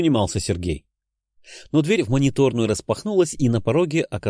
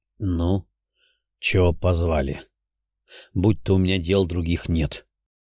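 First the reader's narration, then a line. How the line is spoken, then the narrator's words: Weary old man. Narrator (Russian): устало бросил старец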